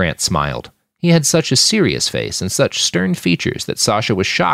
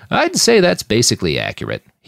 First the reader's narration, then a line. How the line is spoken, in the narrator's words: he chuckled